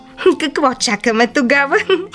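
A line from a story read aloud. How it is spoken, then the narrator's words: Laughing. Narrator (Bulgarian): засмяла се бъртовчетка й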